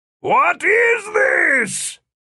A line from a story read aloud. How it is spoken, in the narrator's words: Philip bellowed